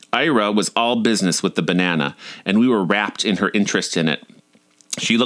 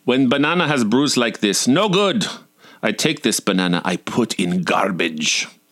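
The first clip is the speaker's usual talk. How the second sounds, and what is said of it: Accented voice in broken English. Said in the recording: “her accent was confusing my mom”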